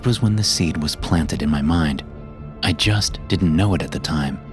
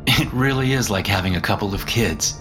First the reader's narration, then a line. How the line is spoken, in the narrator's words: I said, chuckling as I tried to lighten the mood